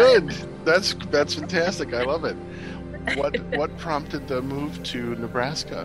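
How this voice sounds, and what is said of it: Usual voice. Nothing is said of it.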